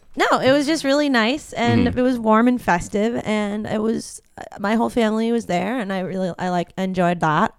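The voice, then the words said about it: Los Angeles Valley girl accent. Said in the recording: “the LA accent is coming through ... the Valley girl accent”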